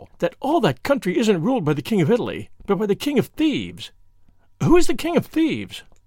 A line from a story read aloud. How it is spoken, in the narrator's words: she cried, with the awful relish of a schoolgirl